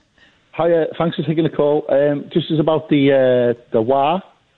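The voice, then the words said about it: Liverpool accent. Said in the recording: “I can tell from your accent that you're from the Liverpool region.”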